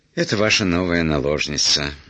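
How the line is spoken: Sigh. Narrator (Russian): вздохнул камердинер

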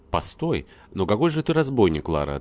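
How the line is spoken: Cheerful, smiling reply. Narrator (Russian): отвечал, весело улыбаясь во все лицо, Веселенев

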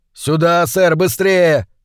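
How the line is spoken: Shout. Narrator (Russian): крикнул он

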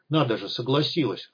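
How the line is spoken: Smirking grunt. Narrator (Russian): хмыкнул депутат

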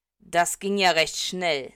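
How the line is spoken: Cold. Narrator (German): sagt kalt

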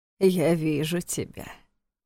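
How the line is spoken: Mocking, hoarse male voice. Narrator (Russian): насмешливо прохрипел незнакомый мужской голос

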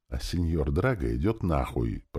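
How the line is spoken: Hoarse wheeze. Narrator (Russian): просипел я

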